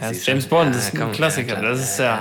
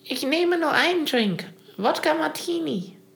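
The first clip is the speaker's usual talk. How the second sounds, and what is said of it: Altered, half-pubescent sounding voice. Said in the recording (German): “da muss ich die Stimme aber auch verändern so ein bisschen ... mit so einer halbpubertären Stimme”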